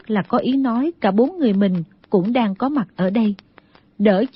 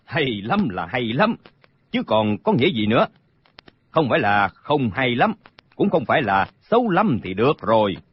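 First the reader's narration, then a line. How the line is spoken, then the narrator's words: Smiling reply. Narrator (Vietnamese): Trương Tam mỉm cười đáp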